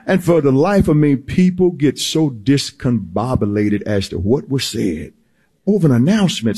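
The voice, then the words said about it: Slight Southern American accent. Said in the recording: “May have a southern accent to it a little bit”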